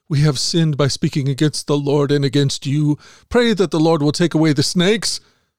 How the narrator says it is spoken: the people came to Moses and cried out

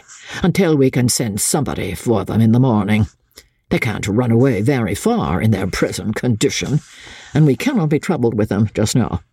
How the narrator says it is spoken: he added roughly

